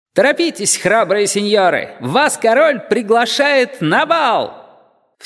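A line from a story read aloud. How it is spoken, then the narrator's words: Cheerful shouting. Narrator (Russian): Он весело кричал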